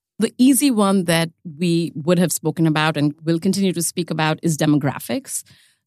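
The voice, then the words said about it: Indian English accent. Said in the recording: “if you can't tell from the accent, that's India”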